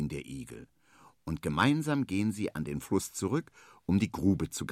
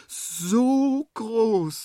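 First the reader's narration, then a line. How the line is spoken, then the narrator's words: Excited speech. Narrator (German): sagt er aufgeregt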